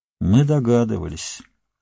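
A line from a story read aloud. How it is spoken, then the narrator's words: Sad. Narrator (Russian): грустно сказал Ингольд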